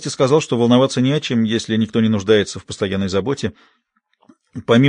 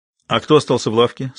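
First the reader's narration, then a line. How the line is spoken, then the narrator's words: Plain question. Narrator (Russian): спросил Терс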